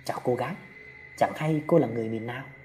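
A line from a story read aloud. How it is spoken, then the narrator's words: Soft question. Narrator (Vietnamese): Anh thầy cúng khẽ hỏi Tâm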